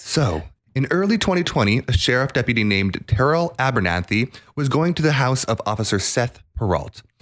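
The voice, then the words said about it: True-crime podcast narrator voice. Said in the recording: “murder podcasts ... I'm going to put on that little voice and do the whole.”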